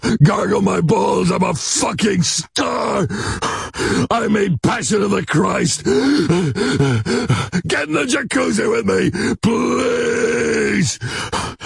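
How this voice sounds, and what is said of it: Breathless, panting impersonated voice. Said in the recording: “You always sound like you're out of breath. Did you just come in from running?”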